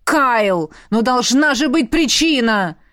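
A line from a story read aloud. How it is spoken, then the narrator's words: Roaring father. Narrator (Russian): Взревел папа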